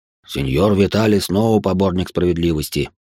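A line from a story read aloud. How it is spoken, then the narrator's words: Grumbling. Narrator (Russian): буркнул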